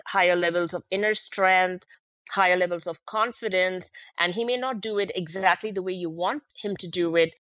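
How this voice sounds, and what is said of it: Indian-accented English. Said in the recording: “I come from India, so my accents are a little different from time to time and almost all the time. And so I have these accents,”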